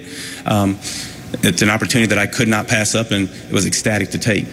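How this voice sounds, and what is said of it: Choked-up, emotional voice. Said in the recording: “I get choked up”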